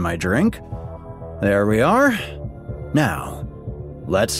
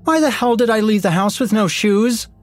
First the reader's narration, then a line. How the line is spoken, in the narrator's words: Heather shouted